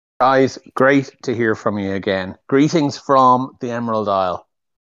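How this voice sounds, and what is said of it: Irish accent. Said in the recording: “your accent, mate ... Irish ... the accents”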